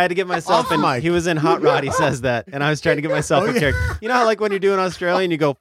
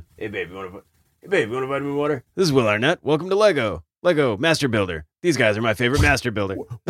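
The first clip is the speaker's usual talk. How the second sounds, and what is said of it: Will Arnett impression. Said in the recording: “Explore that impression a little more. I think it's good.”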